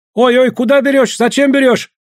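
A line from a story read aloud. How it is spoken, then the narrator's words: Terrified shouting, group. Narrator (Russian): гольды в ужасе закричали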